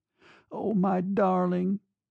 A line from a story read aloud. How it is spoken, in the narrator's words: she begged him